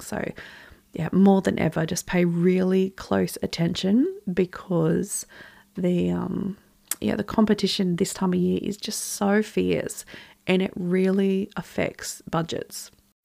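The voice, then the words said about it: Slightly croaky voice. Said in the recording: “you can probably hear that my voice is still a little bit croaky as I'm getting over this cold”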